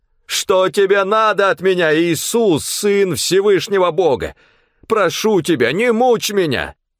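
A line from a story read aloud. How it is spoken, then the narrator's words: Loud anguished scream. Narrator (Russian): с воплем бросился к его ногам и громким голосом закричал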